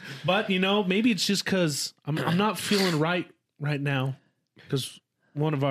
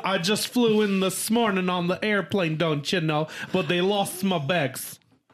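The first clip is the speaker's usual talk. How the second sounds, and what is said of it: Put-on Minnesota accent. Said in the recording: “You from Minnesota now? ... That was a new accent. I've never really done that. ... That's pretty good.”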